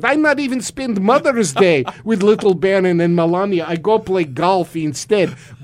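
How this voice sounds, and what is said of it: Put-on Russian accent. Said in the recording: “I like to do the Russian accent ... I can actually make the Russian accent work ... my Russian accent”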